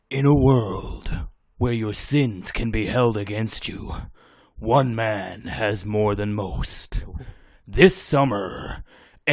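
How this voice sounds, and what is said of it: Dramatic 90s movie trailer voice. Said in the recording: “Can you do the trailer voice from the 90s?”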